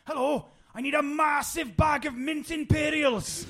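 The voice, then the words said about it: Imitated Welsh accent. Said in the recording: “my favourite phrase I've ever heard in a Welsh accent, and I'm going to butcher this”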